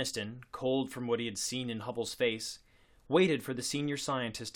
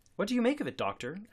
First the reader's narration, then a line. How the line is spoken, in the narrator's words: asked Kresge anxiously